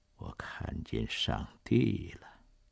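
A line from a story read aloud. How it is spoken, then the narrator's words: Soft tearful voice. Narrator (Chinese): 一大颗眼泪慢慢的涌出眼眶，嘴里只是轻声的说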